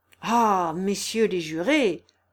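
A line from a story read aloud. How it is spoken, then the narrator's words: Exclaiming. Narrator (French): s'exclame M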